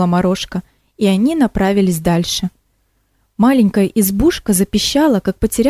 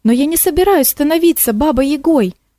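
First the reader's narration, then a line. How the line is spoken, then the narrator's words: Exclamation. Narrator (Russian): воскликнула Морошка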